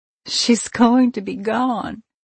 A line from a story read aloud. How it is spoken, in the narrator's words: I sobbed